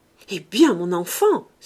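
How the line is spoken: Violent passionate cry. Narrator (French): s'écria violemment Félicité, cédant à sa passion

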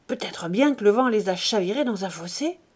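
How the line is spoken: Murmured. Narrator (French): murmura Chantot

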